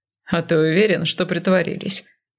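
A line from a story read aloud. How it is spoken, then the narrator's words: Chuckling. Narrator (Russian): Кайл снова хохотнул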